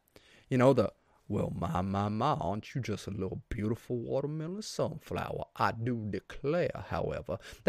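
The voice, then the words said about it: Exaggerated Southern drawl cartoon voice. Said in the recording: “I'm good with a Southern guy who believes in highly conservative values ... That's a little bit of Foghorn Leghorn, too”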